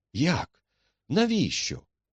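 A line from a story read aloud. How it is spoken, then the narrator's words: Exclaimed. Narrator (Ukrainian): вигукнув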